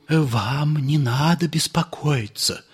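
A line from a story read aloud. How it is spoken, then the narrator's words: Whispering. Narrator (Russian): зашептал Полисов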